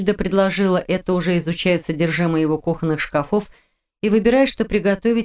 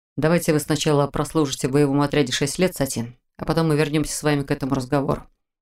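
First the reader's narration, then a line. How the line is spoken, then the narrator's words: Grumbling reply. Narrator (Russian): проворчал в ответ Мор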